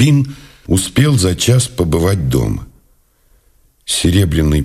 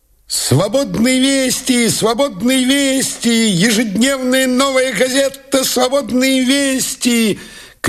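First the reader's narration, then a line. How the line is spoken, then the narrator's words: Boy shouting. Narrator (Russian): кричал газетчик-мальчишка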